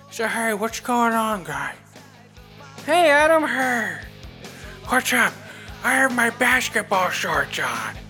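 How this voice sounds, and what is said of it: Imitates another person's voice. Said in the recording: “I detect a little ... there. ... Impersonation. ... Every one of his impersonations is a little bit of him.”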